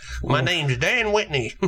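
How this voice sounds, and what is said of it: Exaggerated funny Southern accent. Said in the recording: “do a funny Southern voice”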